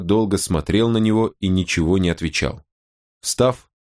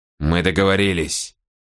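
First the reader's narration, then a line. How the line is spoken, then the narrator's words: Muttered. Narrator (Russian): пробормотал Мора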